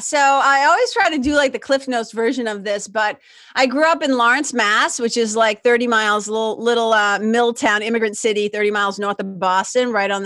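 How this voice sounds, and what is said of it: Noticeable regional accent. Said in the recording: “I love your accent, truly.”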